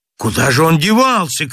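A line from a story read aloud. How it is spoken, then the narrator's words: Shouted. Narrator (Russian): крикнул Чернобородый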